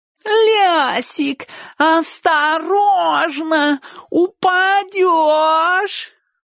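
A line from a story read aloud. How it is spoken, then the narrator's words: Nasal singsong. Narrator (Russian): пропел он гнусаво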